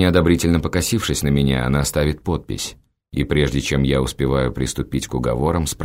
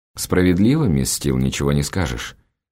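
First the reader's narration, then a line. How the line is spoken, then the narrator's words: Dry, curt. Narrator (Russian): сухо бросаю я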